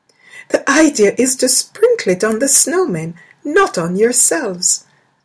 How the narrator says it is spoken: their mother said merrily

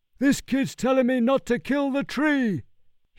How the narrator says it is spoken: shouted back

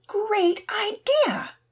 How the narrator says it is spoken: cried out Heather and Lisa

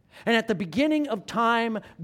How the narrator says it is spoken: God cried out

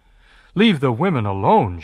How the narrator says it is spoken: Giovanni exclaims

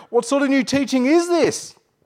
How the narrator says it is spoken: They asked excitedly

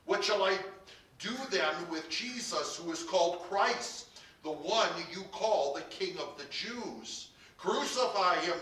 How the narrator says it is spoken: they shouted

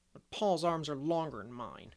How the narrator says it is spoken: grumbled Davy

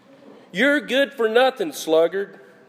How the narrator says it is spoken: the hand said

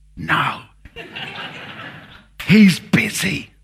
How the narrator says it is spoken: whispered the child

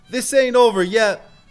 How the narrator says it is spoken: Rufus yelled after him

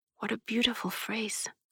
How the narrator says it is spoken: she whispered

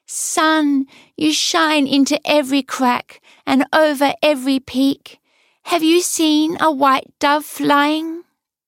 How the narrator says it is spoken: Lulala cried

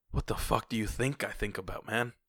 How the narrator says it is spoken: I whispered

